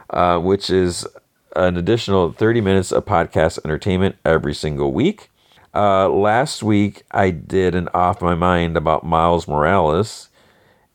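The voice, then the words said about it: Strained, fading hoarse voice. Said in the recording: “I'm losing my voice now. ... I'm really losing my voice,”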